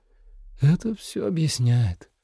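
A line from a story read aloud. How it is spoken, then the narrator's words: Sighing. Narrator (Russian): вздохнула Наира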